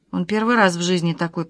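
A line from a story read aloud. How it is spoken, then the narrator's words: Mutter. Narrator (Russian): пробормотала Александра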